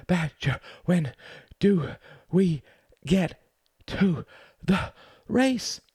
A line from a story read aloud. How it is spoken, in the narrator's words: He panted